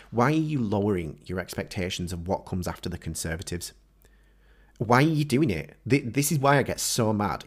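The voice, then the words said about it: Angry, agitated voice. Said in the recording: “You can probably tell from my voice, I'm so pissed off”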